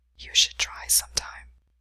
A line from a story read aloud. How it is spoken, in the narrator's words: Ryan whispered